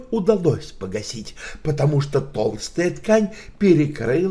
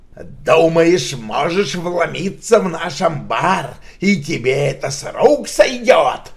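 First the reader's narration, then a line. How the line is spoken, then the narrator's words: Growling. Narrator (Russian): прорычал он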